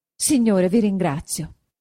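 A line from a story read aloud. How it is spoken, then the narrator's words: Happy exclamation. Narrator (Italian): esclamò Agnese doppiamente contenta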